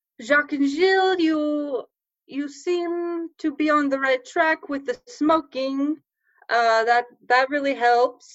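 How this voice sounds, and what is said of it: Put-on accent. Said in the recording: “I'm losing my accent, ... I've got it back.”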